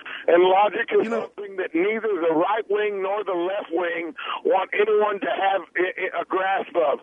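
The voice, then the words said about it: Southern American accent. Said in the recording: “You got a southern accent”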